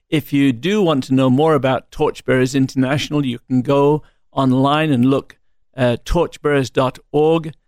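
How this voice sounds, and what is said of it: British accent. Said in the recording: “We love your British accent”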